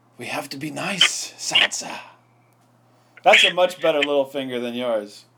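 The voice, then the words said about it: Impression of the character Littlefinger. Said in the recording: “I've never done a Littlefinger impersonation until right now. It's way better. ... That's the worst Littlefinger, I swear.”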